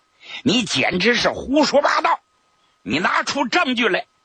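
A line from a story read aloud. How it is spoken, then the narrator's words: Angry rebuke. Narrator (Chinese): 刘志群是怒斥江七爷呀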